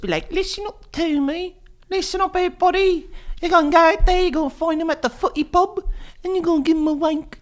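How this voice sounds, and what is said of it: Put-on accent. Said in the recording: “whatever really accent you're doing”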